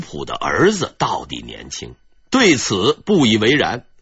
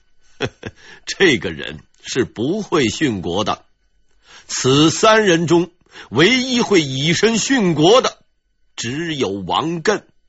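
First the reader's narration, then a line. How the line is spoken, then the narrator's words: Slight smile. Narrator (Chinese): 吴普却微微一笑，说道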